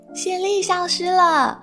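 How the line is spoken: Cheering. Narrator (Chinese): 毛克利欢呼着

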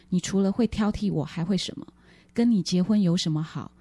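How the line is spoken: Cold reply. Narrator (Chinese): 他冷冷的回说

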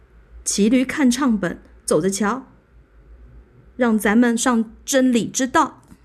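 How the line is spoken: Calling out. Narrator (Chinese): 他叫着

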